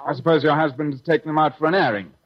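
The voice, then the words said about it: English accent. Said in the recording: “I love that English accent”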